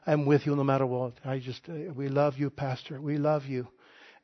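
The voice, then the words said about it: Poorly done put-on Hispanic accent. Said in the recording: “I'm trying to do my Hispanic accent. I'm not good at it.”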